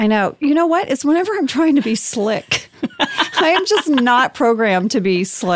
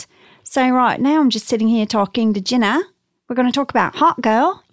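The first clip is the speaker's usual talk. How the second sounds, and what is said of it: Convincing put-on Australian accent. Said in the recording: “I can do Australian ... That's really good ... I'm genuinely impressed.”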